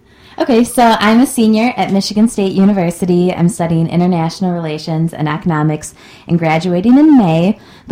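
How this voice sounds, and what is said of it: Sultry radio-style voice. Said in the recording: “you've got a great radio voice ... she's just got a great radio voice ... It's sultry.”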